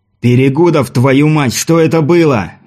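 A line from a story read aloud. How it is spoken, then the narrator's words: Roar in Russian. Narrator (Russian): взревел Патрик на языке родных осин Шейранова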